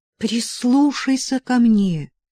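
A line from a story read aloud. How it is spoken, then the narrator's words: Pleading. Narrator (Russian): взмолилась Сильвия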